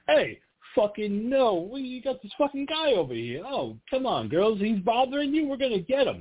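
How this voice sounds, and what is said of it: Put-on New York accent. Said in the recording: “he has a very fucking New York accent the entire time”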